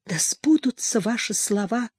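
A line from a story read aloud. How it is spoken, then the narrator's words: Whisper. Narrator (Russian): прошептала Хуршида-бану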